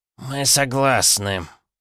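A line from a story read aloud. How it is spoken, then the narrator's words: Chilling creaky voice. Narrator (Russian): проскрипел голос святоши, от которого внутри каждого из нас прошел мороз по коже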